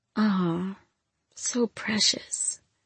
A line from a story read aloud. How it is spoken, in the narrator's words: she whispered, softly